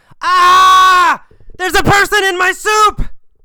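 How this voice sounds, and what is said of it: Yelling. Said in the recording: “He yelled ... Bill yelled. He didn't whisper.”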